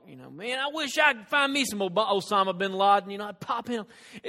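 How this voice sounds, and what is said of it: Put-on redneck accent. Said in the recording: “kind of the way rednecks talk ... He doesn't have that accent”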